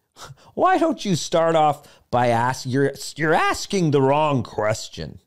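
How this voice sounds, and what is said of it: Poor impression, Kermit-like voice. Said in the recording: “my Jordan Peterson impersonation. It's terrible. It's horrible. But he kind of sounds like Kermit the Frog”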